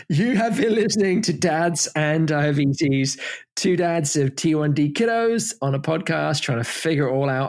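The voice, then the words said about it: English accent. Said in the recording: “it's very, very cute in your English accent”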